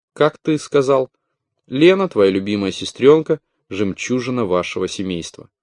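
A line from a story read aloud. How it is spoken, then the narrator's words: Almost natural tone. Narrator (Russian): почти естественным тоном произнесла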